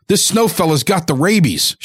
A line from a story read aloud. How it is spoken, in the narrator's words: shouted Father